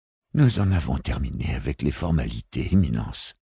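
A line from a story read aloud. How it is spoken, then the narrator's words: Sighing. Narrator (French): soupira l'assistant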